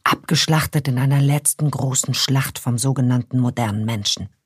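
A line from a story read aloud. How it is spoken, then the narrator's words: Mock-conspiratorial whisper. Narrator (German): flüstert Nick Liana gespielt konspirativ zu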